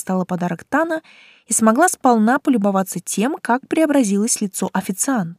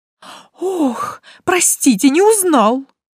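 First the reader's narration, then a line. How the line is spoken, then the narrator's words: Breathless exhale. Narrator (Russian): выдохнул он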